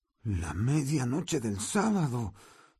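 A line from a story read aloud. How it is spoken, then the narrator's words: Hoarse voice. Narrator (Spanish): dijo con voz ronca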